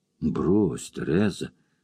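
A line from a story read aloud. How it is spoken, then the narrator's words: Timid, unconvincing warning. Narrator (Russian): робко и неубедительно предостерег Тим Воронски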